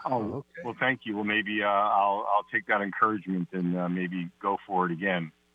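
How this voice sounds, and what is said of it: Radio voice. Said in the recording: “Oh, I love the voice. ... You have a radio voice. You ought to be on the radio.”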